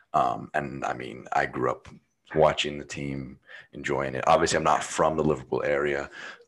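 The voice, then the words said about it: American accent. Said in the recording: “As you can tell by my voice, it's not British. I'm American”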